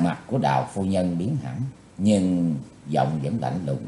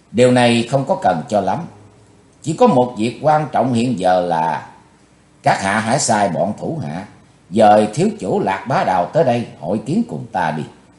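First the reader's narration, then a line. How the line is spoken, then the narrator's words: Cold voice. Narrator (Vietnamese): Chí Tôn giọng lạnh lùng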